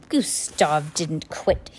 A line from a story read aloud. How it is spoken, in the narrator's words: he said in his wheezy voice